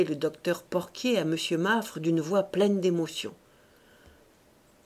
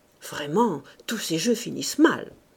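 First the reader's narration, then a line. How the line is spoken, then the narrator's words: Murmur. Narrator (French): murmura M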